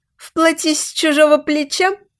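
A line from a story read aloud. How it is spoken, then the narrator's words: Giggling. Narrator (Russian): Ниночка хихикнула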